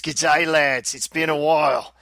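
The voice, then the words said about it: Weak attempted Australian accent. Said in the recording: “you got to work on your accent there, mate”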